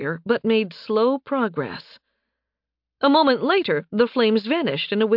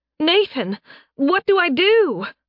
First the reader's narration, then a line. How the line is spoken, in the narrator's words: Faye shouted